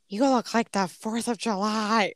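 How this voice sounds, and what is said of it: Poor Jennifer Coolidge impression. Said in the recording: “worst Jennifer Coolidge impression ever”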